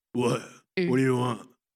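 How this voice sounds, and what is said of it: Deep guttural imitated voice. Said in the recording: “a lot of guttural ... Real deep voice”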